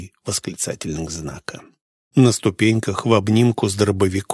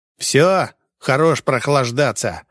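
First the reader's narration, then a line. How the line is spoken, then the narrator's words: Nervous man snapping. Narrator (Russian): рыкнул нервный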